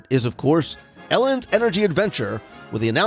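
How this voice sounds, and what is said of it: Usual voice. Nothing is said of it.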